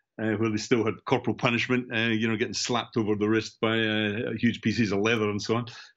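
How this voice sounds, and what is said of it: Central Scottish accent. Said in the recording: “as you can tell from my accent... I'm obviously from Scotland, central Scotland, between Edinburgh and Glasgow”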